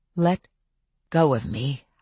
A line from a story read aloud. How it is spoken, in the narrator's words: I said again, this time softly so as not to alarm the werewolves